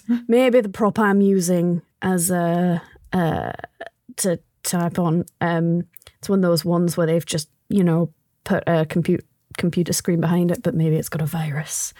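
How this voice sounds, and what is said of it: Put-on accent drifting between accents. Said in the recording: “where's my accent going? ... So many accents in one sentence.”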